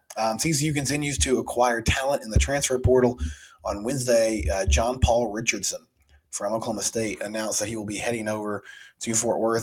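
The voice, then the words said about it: Sick-sounding, congested voice. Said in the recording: “apologize for my voice. I'm dealing with either allergies or some sort of cold ... I've been coughing some on the pod”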